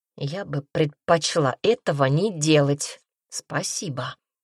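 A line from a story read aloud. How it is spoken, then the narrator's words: Hoarse rasp. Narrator (Russian): Прохрипела она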